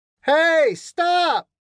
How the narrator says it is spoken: Desperate to make his presence known, Baker continued to shout

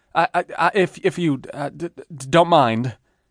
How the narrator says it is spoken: stuttered

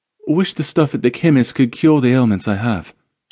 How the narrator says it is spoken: she replied, slightly sighing

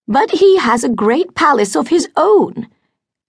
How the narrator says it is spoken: exclaimed Lady Beverley

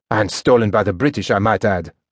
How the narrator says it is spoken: snorted Bernheim

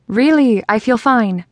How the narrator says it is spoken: snapped

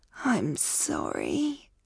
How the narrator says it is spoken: croaked

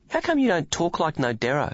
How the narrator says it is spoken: Billy sighed

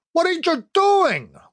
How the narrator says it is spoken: Rodriguez yelped

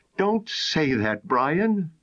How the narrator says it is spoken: cried out with a shiver

